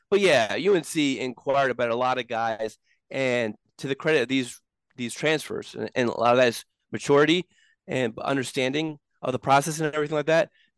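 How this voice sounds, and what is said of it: Rough, congested voice. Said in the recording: “You sound a little rough. ... It's just congestion and all that sort of stuff.”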